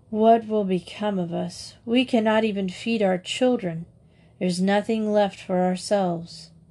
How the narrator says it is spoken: he sighed heavily and said to his wife

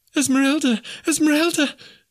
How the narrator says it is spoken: she cried

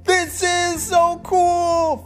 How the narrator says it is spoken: Felix shouted

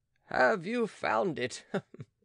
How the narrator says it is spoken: asked Monsieur de Crosny, laughing

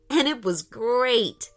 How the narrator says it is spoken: laughed Aiden

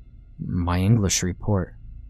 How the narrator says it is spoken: Danny mumbled back, barely audible

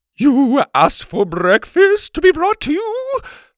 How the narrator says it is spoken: she said in her sing song voice

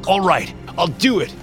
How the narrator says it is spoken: the man yelled in panic

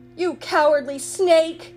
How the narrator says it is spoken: Aladdin snapped

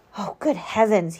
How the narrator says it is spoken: he gasped

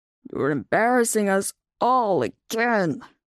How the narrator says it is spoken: Shadow growled under his breath

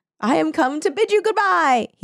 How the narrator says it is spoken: he cried

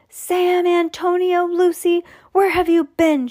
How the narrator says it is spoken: she yelled

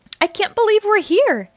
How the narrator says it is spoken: Jade exclaims

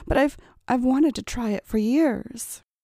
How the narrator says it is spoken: stammered

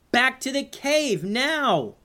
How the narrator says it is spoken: yelled

